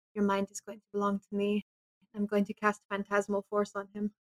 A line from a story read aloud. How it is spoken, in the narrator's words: I'm going to whisper in his ear